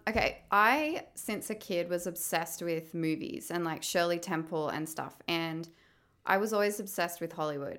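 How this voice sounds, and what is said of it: Australian accent. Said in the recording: “neither of us are from LA, if you can tell by our accents. ... We're from Australia.”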